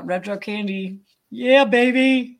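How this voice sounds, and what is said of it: Imitates another person's voice. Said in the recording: “I can hear him say it ... That was a good voice impersonation.”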